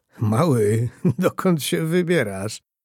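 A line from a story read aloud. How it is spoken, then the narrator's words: Warm asking voice. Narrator (Polish): spytał Antoni ciepłym głosem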